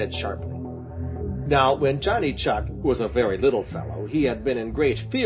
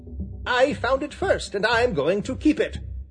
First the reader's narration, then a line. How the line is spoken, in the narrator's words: snapped Johnny Chuck, and with every hair on end and gritting his teeth